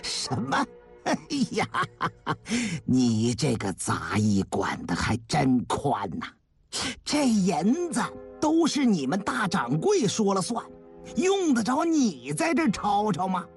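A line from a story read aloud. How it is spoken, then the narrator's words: Mocking sneer. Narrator (Chinese): 其他掌柜也都发出了嘲讽的冷笑声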